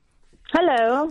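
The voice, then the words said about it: Posh put-on voice. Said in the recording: “why are you doing a posh voice?”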